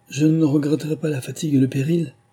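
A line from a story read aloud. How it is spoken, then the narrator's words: Cheerfully resumed. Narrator (French): repris-je gaiement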